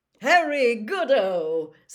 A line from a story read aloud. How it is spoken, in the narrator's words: said Bagman happily